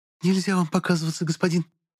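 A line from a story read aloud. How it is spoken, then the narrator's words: Maidservant whispering. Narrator (Russian): зашептала прислужница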